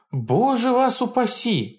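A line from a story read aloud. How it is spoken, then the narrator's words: Exclaiming. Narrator (Russian): воскликнул Григоренко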